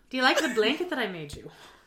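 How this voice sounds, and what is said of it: Put-on Irish accent. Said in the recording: “See, I'm going Irish now... that was very Daphne”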